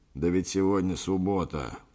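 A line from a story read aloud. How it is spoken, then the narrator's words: Grumbled. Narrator (Russian): проворчал Йенсен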